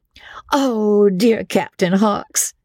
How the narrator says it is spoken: they cried

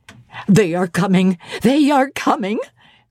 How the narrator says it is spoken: cried Hannah

